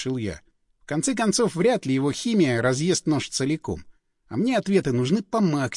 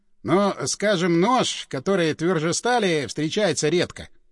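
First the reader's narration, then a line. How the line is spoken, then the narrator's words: Muttering. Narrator (Russian): пробормотал Андрюха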